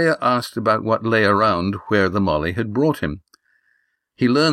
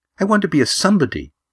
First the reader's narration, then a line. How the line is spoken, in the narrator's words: she said earnestly